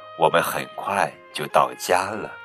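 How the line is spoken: Gentle. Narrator (Chinese): 熊妈妈温柔地说

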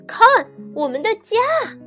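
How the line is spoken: Shouting. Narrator (Chinese): 卡梅利多大叫

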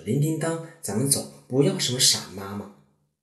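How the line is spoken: Loud. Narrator (Chinese): 他 大声说

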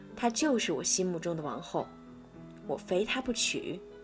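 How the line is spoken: Delighted murmur to himself. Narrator (Chinese): 国王格外喜欢，就喃喃自语道

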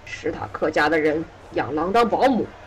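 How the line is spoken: Harsh, stern. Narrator (Chinese): 猎狗厉声回答

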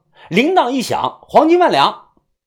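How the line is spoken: Loud shout. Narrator (Chinese): 大喊一声

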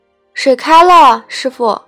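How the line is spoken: Shouting from afar. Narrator (Chinese): 小瞎子 在院里喊

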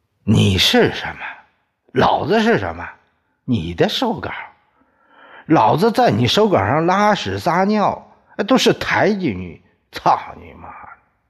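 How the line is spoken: Angry. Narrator (Chinese): 宋刚也愤怒了，说

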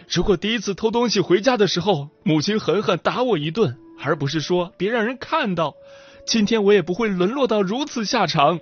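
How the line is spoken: Loud impassioned outcry. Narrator (Chinese): 他大声疾呼

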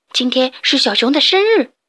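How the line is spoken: Hurried. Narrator (Chinese): 小猪急忙说

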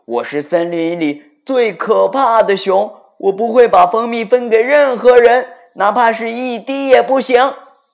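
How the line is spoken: Loud roar. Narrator (Chinese): 他继续大声吼道

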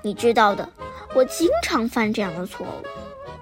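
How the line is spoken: Awkward laugh. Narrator (Chinese): 她讪笑着说

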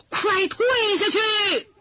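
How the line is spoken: Loud shout. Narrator (Chinese): 大喊一声

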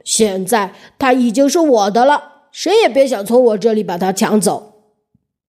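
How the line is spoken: Angry giant. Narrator (Chinese): 蛤蜊巨人恼怒地说

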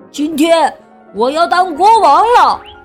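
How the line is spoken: Proud loud proclamation, small mouse. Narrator (Chinese): 小田鼠巴顿扬着下巴，大声的宣布

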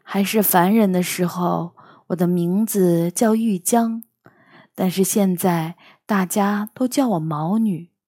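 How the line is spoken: Sighing. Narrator (Chinese): 他叹了口气说

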